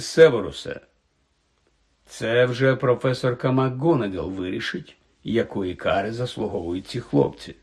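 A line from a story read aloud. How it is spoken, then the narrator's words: Calm interruption. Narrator (Ukrainian): спокійно перервав його Дамблдор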